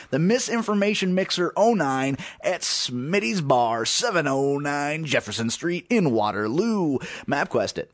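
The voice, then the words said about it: Radio announcer voice. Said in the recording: “That was my radio announcer voice.”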